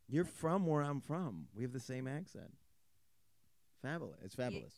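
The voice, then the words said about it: Strong New York accent. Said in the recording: “Your accent's way more ... New York than mine.”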